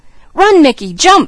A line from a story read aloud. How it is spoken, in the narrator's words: screamed Junior